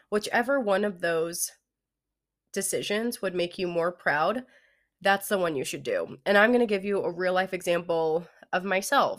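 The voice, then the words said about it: Congested, nasal voice. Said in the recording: “I have a little bit of a cold. My voice always gets so bad when I have a head cold... I either lose my voice or I just sound so nasally”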